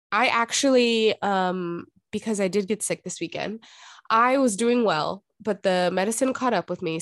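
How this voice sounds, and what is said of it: Nasal, congested voice. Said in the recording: “That's why I sound nasally.”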